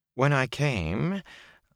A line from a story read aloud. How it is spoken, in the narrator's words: Leandrin said in a cold voice